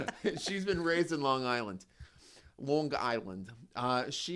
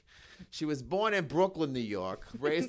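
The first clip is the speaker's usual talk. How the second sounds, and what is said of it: Put-on Brooklyn New York accent. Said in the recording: “I don't know why I immediately went into that accent.”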